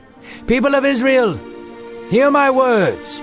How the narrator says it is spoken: Peter shouted

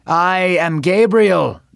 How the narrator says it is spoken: the angel shouted

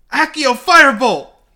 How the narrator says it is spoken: He shouted

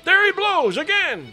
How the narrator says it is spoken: cried the tub oarsman

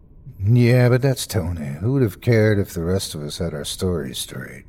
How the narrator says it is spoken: Eric answered, his voice flat

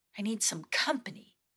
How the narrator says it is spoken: Intrepta sighed to herself

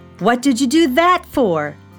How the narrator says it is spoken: shouted Felix

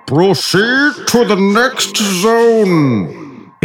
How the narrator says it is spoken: exclaimed the firehorn

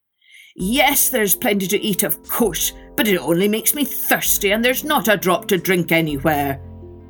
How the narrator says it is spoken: grumbled

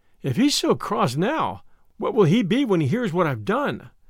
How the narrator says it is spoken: she reflected miserably

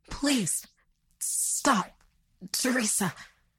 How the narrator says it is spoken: he sputtered out in pain

